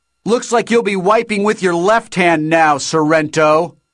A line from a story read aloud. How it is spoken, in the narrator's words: Shoto shouted triumphantly